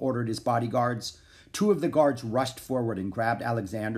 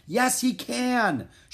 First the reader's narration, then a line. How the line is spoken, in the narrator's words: shouted Alexander